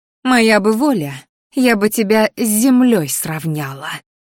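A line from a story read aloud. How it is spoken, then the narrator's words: Hissing up close. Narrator (Russian): зашипела она мне в лицо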